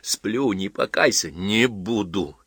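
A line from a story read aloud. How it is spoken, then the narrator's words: Strained, breaking into tears. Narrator (Russian): выдавил из себя Востриков и заплакал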